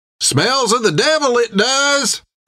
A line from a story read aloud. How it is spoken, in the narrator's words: cried the boy